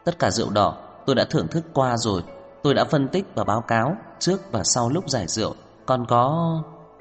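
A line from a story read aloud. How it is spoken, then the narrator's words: Soft, surprised. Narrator (Vietnamese): ngạc nhiên … vừa đặt vừa khẽ nói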